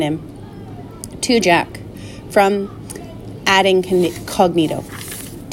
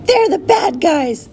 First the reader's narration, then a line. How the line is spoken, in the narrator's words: A girl's voice shouted